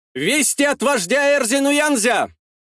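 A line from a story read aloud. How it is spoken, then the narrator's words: Shout from behind. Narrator (Russian): выкрикнули за спиной Куввада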